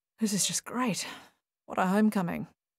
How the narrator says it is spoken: murmured Paul

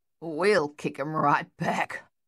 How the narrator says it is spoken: Luther growled

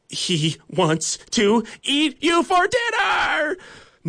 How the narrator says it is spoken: Nugget's classmates scream at them

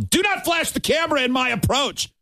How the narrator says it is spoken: yelled

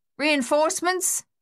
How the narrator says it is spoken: Luther yelled across the noise of the gunfire

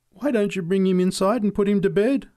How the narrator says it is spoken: pleaded

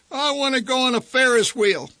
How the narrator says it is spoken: Randy whined

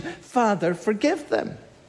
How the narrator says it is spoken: he cries out to the Father in compassion

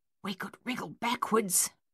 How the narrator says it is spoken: Coralie whispered

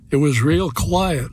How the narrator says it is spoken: she said

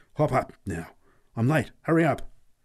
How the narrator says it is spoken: exclaimed urgently

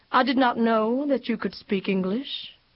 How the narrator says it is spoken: said evenly

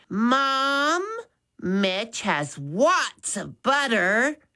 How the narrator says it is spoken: Maddie said loudly

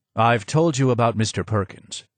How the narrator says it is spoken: he said

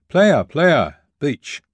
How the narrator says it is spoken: they began shouting

